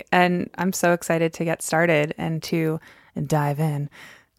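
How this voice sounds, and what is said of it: Calm public-radio host voice. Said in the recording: “It's my NPR voice.”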